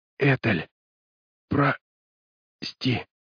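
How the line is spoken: Weak whisper. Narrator (Russian): слабо прошептал Мэрс

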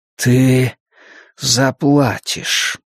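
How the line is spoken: Quiet breathed threat. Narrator (Russian): негромко выдохнул он

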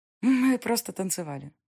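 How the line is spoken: Sweet voice. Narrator (Russian): произнесла Диана сладким голосом

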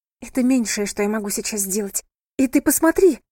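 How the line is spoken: Sharp cry. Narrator (Russian): вскрикнула Лотти

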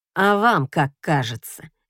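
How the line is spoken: Sarcastic. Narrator (Russian): язвительно отзывается Эшфорд

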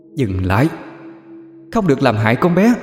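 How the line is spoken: Shouting. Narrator (Vietnamese): Cô hét lên

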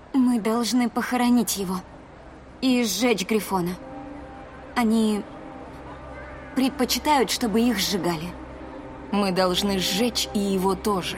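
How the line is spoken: Flat even voice. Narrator (Russian): ровным голосом сказала Кэт

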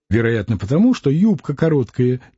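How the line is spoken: Quiet reply. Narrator (Russian): тихо ответила Варвара

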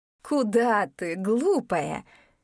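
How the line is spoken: Laughing. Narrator (Russian): рассмеялась Дория

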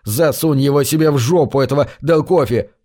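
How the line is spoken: Snapping. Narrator (Russian): огрызнулся я

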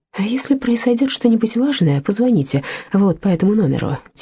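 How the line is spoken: Quiet voice. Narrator (Russian): тихим голосом произнес лейтенант

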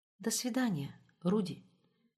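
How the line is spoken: Barely audible. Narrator (Russian): чуть слышно сказала Роза

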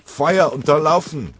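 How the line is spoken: Roared. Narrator (German): brüllte Oberleutnant Thyssen

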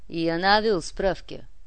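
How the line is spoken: Cold. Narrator (Russian): холодно сказал Эдуардик

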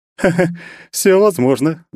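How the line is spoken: Laughing. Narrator (Russian): засмеялась Алена

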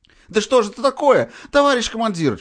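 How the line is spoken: Shrieking, near tears. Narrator (Russian): Чуть не плача завизжал еврей

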